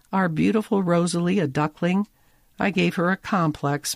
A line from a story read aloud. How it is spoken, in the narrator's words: Molly moans